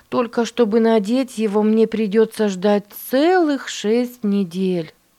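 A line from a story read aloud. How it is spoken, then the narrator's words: Sighing. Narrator (Russian): вздохнула Катрина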